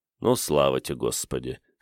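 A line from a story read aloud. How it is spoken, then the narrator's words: Snorting. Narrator (Russian): хмыкнул Игорь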